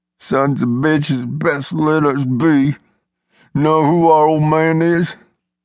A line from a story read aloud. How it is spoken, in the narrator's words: Yule whimpered and spit from swelled lips turning purple, talked in his toughest tone